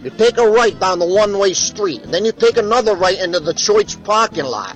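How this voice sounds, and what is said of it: Put-on Chicago accent. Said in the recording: “That was more like Chicago accent”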